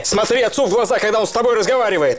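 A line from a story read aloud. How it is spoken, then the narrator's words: Furious shout. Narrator (Russian): Алик от молчания взбесился, выкрикнул дурацкой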